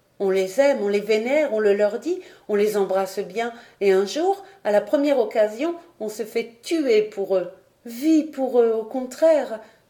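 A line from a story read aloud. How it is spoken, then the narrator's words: Exclaiming young girl. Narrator (French): s'écria la jeune fille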